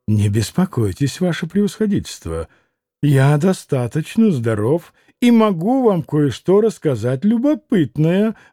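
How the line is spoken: Calm and respectful. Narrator (Russian): ответил вдруг совсем спокойно и почтительно Иван Федорович

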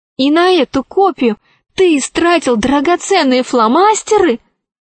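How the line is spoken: Exclaimed. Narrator (Russian): воскликнула Алиса

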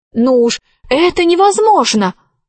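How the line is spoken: Exclaimed. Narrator (Russian): воскликнула Алиса

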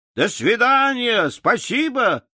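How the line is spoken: Travelers shouting. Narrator (Russian): прокричали путники

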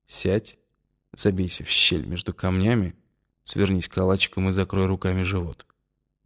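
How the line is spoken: Whispered in the ear. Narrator (Russian): прошептал он мне на ухо

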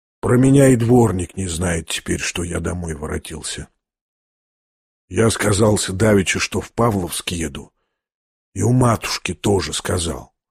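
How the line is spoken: Sly pleased whisper. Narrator (Russian): прошептал с хитрой и почти довольной улыбкой

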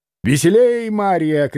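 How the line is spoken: Shouting. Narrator (Russian): кричала она

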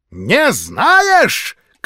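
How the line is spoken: Shout. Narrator (Russian): крикнула она

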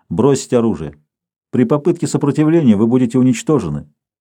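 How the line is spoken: Calm. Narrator (Russian): Так же спокойно продолжал голос

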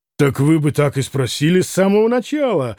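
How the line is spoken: Loud laughter. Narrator (Russian): громко рассмеялся Митя

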